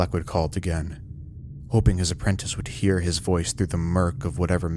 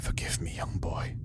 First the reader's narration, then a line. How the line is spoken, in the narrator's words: he whispered